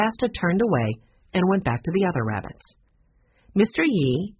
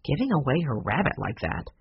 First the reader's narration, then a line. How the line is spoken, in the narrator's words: muttered Taylor